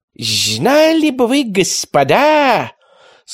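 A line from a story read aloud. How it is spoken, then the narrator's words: High whistling inhuman voice. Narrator (Russian): сказал ученый действительно высоким и свистящим голосом, никак не похожим на человеческий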